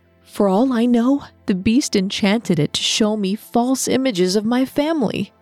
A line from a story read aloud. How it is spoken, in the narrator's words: she exclaimed